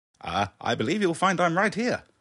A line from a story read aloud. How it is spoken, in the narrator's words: called out the doctor